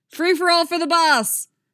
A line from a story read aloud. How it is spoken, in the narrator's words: Sam yelling